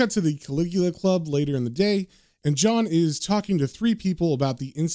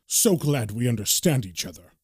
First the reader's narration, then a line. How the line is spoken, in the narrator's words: Marston sternly says